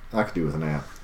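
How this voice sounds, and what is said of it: Put-on Southern accent. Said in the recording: “Southern accent.”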